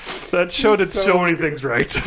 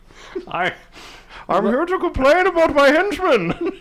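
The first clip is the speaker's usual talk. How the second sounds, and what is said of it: Imitates a cartoon villain's voice. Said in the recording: “Doug Benson does it. Does the voice.”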